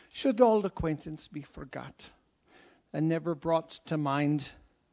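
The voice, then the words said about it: Put-on Scottish accent, singing. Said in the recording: “this is my Scottish accent, so just let's work with it”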